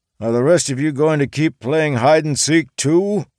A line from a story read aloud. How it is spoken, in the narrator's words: Charles grunted